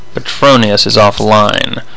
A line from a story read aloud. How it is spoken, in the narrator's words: Nadia said grimly